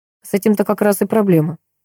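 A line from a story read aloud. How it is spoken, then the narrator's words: Muttering while digging. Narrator (Russian): энергично копая, пробормотал вампир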